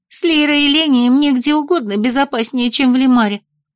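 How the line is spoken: Sad. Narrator (Russian): грустно выдала Белка

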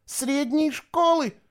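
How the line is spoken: Shouted, female. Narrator (Russian): выкрикнула она

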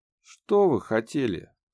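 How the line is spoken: Displeased question. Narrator (Russian): спросила дама недовольным голосом

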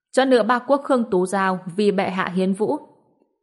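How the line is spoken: Loud formal announcement. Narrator (Vietnamese): đại nội hầu quan cao giọng hô

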